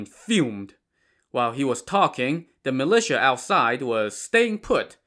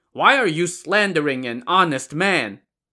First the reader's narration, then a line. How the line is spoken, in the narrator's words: Shijin now shouted to Li Ji